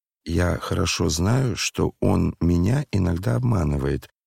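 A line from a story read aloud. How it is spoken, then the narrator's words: Reluctant, low-voiced. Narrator (Russian): неохотно произнес вполголоса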